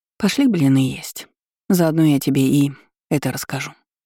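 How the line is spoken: Sighing. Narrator (Russian): мама вздохнула ... и сказала

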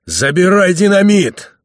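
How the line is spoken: Shout. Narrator (Russian): крикнул еще раз Лбов

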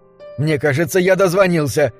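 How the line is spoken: Sudden exclamation. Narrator (Russian): внезапно воскликнул друг

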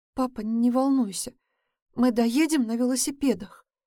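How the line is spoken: Strained, forced out. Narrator (Russian): выдавила из себя Саша

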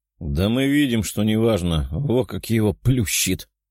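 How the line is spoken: Chuckle. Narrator (Russian): хохотнул один из охранников

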